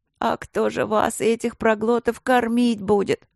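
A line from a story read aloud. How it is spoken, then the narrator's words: Suffering moan. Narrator (Russian): страдающим голосом простонала повариха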